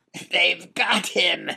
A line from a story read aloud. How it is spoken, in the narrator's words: squealed the Duke